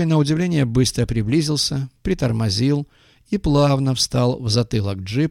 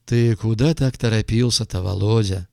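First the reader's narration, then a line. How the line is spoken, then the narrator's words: Deep pleasant voice. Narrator (Russian): спросил пассажир густым приятным голосом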